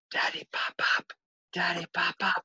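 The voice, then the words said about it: Whispering child's voice. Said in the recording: “whispering”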